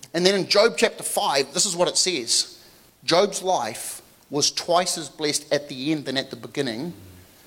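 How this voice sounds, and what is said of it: Non-native accent, rolled R. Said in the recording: “I rolled my R so you guys could understand what I was saying. Because my accent is a little weird.”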